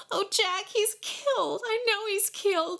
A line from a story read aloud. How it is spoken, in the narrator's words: she wailed